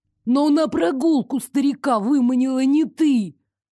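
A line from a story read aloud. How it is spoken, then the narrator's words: Dismayed wail. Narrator (Russian): Обескураженно взвыл Элмер, почувствовав, как заслуженная победа в споре самым наглым образом выскальзывает из его рук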